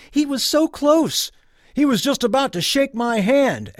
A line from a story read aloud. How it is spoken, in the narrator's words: Someone else yelled